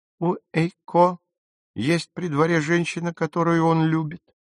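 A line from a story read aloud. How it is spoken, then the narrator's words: Sad. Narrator (Russian): печально произнесла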